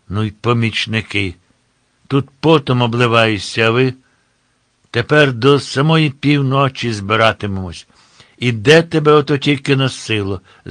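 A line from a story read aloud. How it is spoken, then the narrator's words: Angry bark. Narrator (Ukrainian): гримнув сердито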